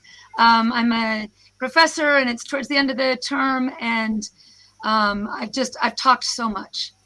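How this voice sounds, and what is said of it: Hoarse voice. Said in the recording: “I apologize for my hoarse voice”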